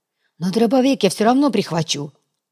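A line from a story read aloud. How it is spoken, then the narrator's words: Gruff mutter. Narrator (Russian): буркнул Натуга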